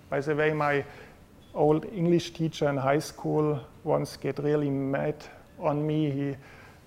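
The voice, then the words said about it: German-accented English. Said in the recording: “My English, as you know meanwhile, is not excellent, in particular not accent-free ... my English pronunciation is worse than the ... ich spreche mein Englisch deutscher aus wie die alten Nazis”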